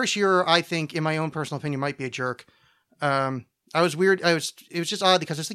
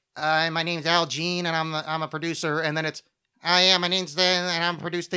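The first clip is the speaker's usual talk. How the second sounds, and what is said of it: Stereotypical nerd voice. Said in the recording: “a bunch of those producers have the exact same voice ... they actually have a stereotypical nerd voice.”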